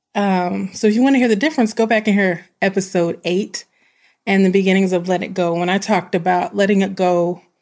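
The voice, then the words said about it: Country twang accent. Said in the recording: “my voice sounds a bit different when it's the evening... In the morning, I sound like a dude. In the evening, I sound like a girl... But I still got that country twang.”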